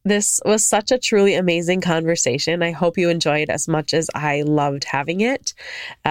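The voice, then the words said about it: Slightly funky, post-cold voice. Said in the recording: “I am coming off of a cold here. So my voice is a little funky”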